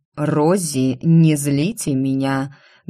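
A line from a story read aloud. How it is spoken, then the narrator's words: Muffled voice. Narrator (Russian): глухо проговорил Каен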